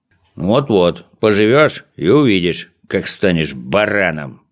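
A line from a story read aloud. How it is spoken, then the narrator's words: Grumbling. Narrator (Russian): проворчал Козлик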